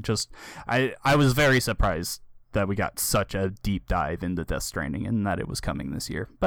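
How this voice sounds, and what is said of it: Tired, worn-out voice. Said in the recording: “as you can tell from my voice, I am wiped out”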